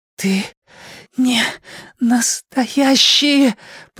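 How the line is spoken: Hoarse wheeze. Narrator (Russian): прохрипел Эдди

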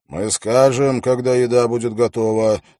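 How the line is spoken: Angry. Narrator (Russian): сказал он сердито

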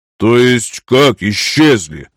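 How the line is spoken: Angry question. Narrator (Russian): Зло глядя на Анею, поинтересовался Герин

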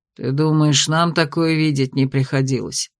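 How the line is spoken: Gloomy snort. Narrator (Russian): мрачно хмыкнул Тирой

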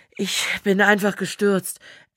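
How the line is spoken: Panting male voice. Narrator (German): erzählt er ihr keuchend

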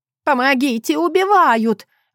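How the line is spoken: Old woman screaming. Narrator (Russian): вопила бабушка

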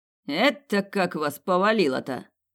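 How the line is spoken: Snorting commander. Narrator (Russian): хмыкнул командир

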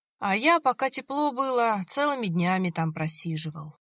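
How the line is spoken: Dreamy sigh. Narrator (Russian): мечтательно вздохнул Виталий

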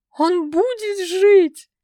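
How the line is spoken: Sobbing, guilt-ridden. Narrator (Russian): Продолжала рыдать несчастная учительница, чувствовавшая себя виноватой

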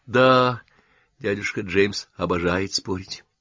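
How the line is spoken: Sighing. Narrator (Russian): вздохнула девушка

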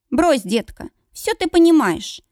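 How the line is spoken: Sharp. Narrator (Russian): резко говорю

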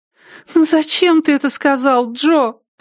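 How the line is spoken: Moan. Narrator (Russian): простонала Триша

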